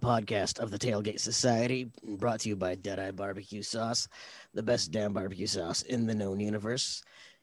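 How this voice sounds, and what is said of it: Gravelly, rough voice. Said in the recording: “Sounds like I'm doing better than you. ... I am a little bit under the weather. My voice is just extra sexy tonight. ... Just imagine you're talking to Nick Nolte”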